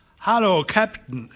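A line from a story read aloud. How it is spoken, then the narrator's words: Calling out. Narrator (German): rief er Dyke zu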